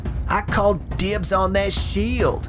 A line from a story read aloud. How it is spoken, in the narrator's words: One of them yells